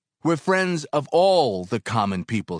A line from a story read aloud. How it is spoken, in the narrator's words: he shouted